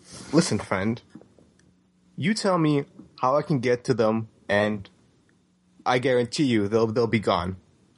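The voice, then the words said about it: Performed character dialect voice. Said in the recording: “I'm very impressed with your expertise in the dialect.”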